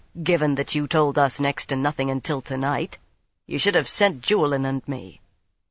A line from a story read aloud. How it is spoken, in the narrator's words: he said dryly